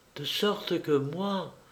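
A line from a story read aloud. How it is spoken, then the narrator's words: Princess whispering. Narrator (French): chuchota la princesse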